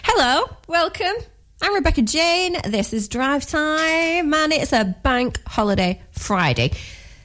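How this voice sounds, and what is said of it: Lancashire accent. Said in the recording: “this very Lancashire accent that we've got going on”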